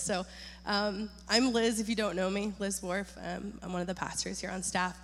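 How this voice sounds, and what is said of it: Voice slightly deeper than usual. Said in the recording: “my voice is a little deeper today”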